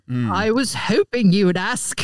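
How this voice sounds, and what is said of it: Put-on British accent. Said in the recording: “she wanted to hear ... British accent”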